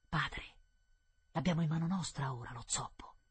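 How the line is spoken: Whispering together. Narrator (Italian): bisbigliarono

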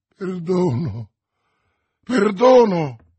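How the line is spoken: Exclaimed. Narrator (Italian): esclamò Felton

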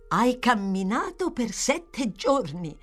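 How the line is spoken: Young man exclaiming. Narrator (Italian): esclamò il giovane gentiluomo

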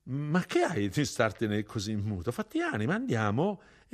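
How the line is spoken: Encouraging laugh. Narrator (Italian): E rise, per dargli coraggio

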